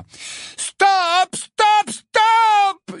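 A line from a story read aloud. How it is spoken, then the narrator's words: Screamed. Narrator (French): hurla Angelina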